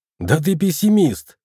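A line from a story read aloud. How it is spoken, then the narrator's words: Snorting, skeptical. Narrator (Russian): хмыкнул Борис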